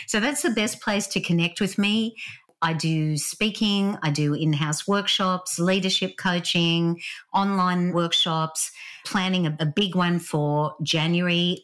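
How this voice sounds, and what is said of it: Australian accent. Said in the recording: “My Aussie accent's still firmly there after 26 years living in Vancouver.”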